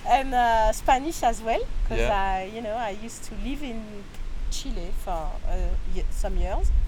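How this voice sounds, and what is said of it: French-accented English. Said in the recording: “I speak English, well, with my terrible French accent.”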